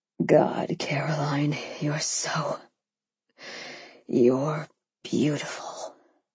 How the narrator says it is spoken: he murmured

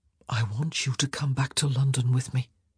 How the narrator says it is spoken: he whispered, the words tumbling forth before he had a chance to consider them

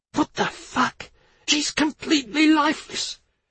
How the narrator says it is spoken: Tina hissed

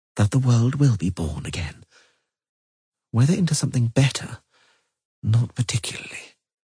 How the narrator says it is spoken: said Nimue softly

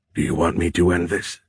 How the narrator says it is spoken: Dohai whispered

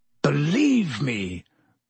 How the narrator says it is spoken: croaked Black

